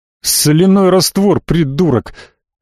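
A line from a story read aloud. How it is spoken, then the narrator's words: Barking. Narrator (Russian): Рявкнул я на Тиле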